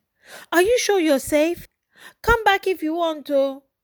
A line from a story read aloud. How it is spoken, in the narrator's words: her mother kept calling and pleading